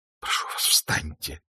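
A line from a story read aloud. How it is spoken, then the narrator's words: Pleading. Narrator (Russian): взмолилась она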